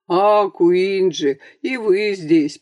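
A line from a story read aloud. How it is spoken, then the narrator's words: Friendly bass voice. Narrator (Russian): приветливо пробасил Шишкин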